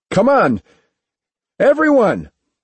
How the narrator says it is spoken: Noble shouted

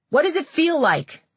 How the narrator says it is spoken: journalists shouted

